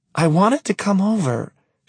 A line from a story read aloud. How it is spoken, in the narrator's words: she says in a whiny little girl tone